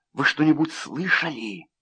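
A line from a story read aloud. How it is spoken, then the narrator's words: Whispered. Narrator (Russian): прошептала она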